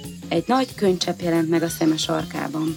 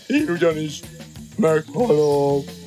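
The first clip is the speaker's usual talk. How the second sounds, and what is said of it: Even more sepulchral, gloomy voice. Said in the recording (Hungarian): “Mondta még síribb hangon”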